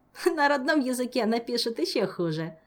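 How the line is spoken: Laughing. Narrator (Russian): засмеялся Жак

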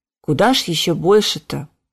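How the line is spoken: Muttered. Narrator (Russian): пробормотал доктор

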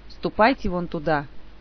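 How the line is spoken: Dry, commanding. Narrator (Russian): сухим повелительным тоном сообщил маг

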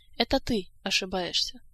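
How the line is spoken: Cold interruption. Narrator (Russian): Холодно перебил его Кантор

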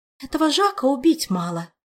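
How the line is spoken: Sorrowful sigh. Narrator (Russian): горестно вздохнула волшебница

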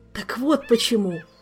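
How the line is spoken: Groaning. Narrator (Russian): только и смог простонать Кантор

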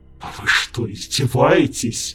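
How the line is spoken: Menacing hiss. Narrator (Russian): Угрожающе прошипел наместник

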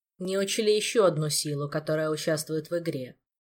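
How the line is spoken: Gloomy reply. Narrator (Russian): мрачно отозвался Кантор

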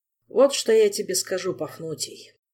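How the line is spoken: Grumbled. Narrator (Russian): проворчал он

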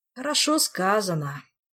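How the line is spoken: Bitter sigh. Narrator (Russian): горько вздохнул Амарго

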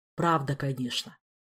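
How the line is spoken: Dejected admission. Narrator (Russian): уныло признался Виктор

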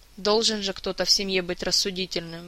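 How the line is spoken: Sighing again. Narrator (Russian): в очередной раз вздохнул Александр

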